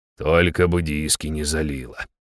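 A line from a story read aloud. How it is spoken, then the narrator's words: Barely audible mumble. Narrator (Russian): еле слышно пробубнил он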